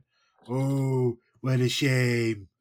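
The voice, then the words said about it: Imitates another person's voice. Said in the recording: “doing a Trump voice”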